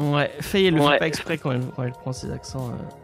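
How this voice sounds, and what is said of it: Usual voice. Nothing is said of it.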